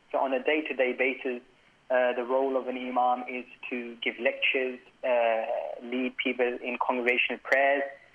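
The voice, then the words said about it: Slight British accent. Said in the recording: “I can hear a little bit of an accent there. You are from Britain”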